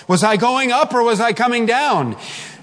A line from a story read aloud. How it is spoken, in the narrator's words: she called out